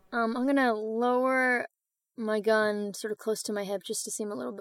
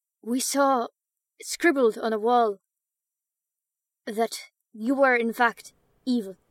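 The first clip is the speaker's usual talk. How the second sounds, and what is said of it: Character voice with put-on accent. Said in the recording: “Gotta do the accent.”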